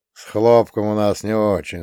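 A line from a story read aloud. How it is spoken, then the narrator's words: Old man sighing. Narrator (Russian): вздохнул дед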